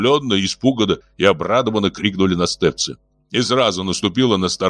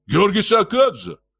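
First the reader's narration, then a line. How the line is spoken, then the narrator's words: Sudden cry. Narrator (Russian): вскрикнул Юрки Настевец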